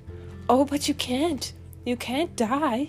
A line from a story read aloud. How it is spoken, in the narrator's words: she exclaimed suddenly